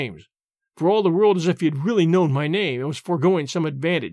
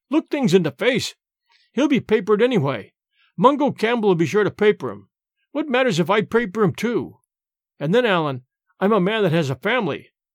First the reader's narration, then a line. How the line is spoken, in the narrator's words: cried James